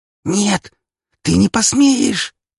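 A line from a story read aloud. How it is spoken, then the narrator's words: Hissed. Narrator (Russian): прошипела она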